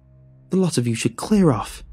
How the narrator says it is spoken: she cried

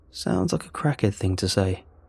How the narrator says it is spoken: Bryce chuckles

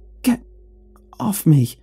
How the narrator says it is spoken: she stammered, voice breathless

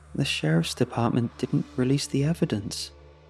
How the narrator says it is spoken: I said quietly

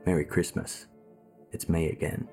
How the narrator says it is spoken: He whispered

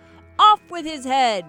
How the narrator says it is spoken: she shouted

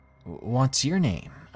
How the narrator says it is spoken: I asked him

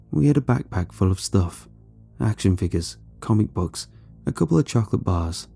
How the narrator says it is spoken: said quietly

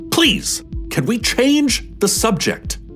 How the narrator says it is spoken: snapped

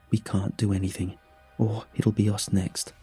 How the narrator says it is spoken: he whispered

